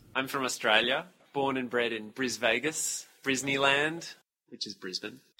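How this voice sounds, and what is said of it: Slight foreign accent. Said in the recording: “who's got a hint of an accent”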